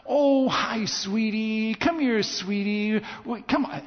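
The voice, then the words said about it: Baby talk voice. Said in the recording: “in your best baby talk voice”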